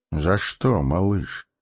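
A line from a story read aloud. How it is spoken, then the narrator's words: Gentle question. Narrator (Russian): ласково спросил маг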